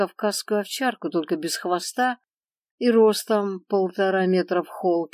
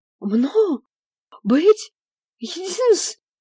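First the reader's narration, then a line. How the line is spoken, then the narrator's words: Loud indignant yelling. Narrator (Russian): орала псином попаданка, пытаясь громкостью вопли доказать животным свою правоту и исключительность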